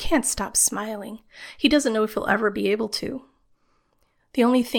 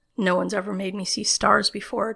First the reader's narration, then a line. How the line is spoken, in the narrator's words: John says